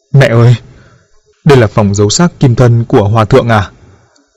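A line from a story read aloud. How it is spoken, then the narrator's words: Trembling, fearful. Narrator (Vietnamese): Diệp Thành là người nhát gan nhất, run rẩy nói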